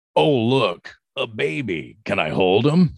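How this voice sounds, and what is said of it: Imitates a very deep male voice. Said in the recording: “this big, tall man with a very deep voice”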